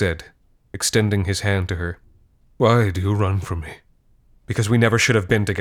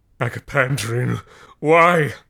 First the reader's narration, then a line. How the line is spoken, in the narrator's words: He howled